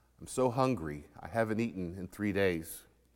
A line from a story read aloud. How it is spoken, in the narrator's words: said quietly